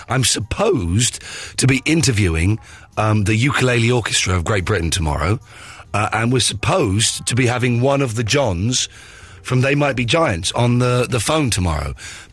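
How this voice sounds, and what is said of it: Hoarse, nearly lost voice. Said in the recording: “lost my voice. ... I can't interview the ukulele orchestra with a voice like this”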